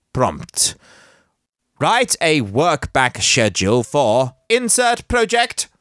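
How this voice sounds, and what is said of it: Fake robotic Dalek-like voice. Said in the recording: “a fake robot voice ... It's like a Dalek, isn't it? From the Doctor Who thing.”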